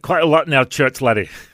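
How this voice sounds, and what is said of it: Bad put-on Scottish accent. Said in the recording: “the Scottish accent ... That's a terrible. ... That was a terrible one.”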